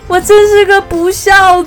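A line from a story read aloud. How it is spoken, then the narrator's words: Bursting into tears. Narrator (Chinese): 小火龙说着就大哭起来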